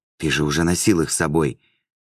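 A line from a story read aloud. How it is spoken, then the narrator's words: Whispered. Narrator (Russian): шептала Лиима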